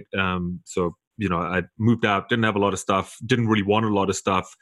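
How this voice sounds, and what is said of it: South African accent. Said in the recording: “South Africa. That's where I'm from. That's why I got a funny accent.”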